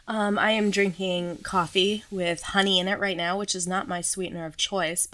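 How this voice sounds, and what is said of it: Sore-throated, slightly off voice. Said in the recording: “my throat's a little off, or my throat hurts, my voice is a little off, I should say. You can probably tell”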